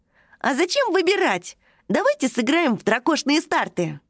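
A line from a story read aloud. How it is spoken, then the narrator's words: Cheerful exclamation. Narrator (Russian): Весело воскликнул он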